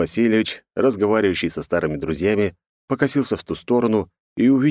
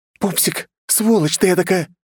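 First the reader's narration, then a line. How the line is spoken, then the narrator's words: Loud irritated hissing woman. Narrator (Russian): Раздраженный женский голос громко зазвучал, хоть и с шипением, как будто девушка не хотела привлекать себе лишнего внимания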